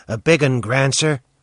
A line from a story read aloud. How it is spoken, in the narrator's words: he chuckled